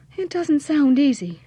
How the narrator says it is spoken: sighed Petronella

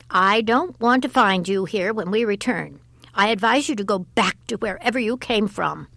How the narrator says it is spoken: she said sharply

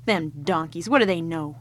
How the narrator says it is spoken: He laughed to himself and muttered

